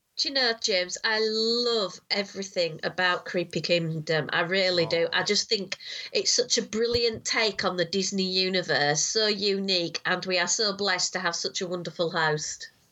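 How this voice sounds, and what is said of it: Congested, creepy-sounding voice from cold. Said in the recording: “you do your creepy voice. ... I'm just full of cold.”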